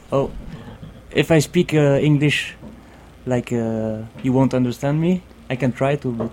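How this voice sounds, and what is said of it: Strong Belgian accent in English. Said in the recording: “a very strange Belgian accent”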